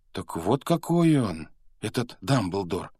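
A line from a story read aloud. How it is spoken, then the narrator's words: Exclaimed. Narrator (Russian): воскликнул Гарри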